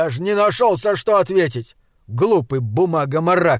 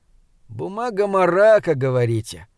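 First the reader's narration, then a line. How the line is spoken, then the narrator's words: Sigh. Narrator (Russian): вздохнул Аткинс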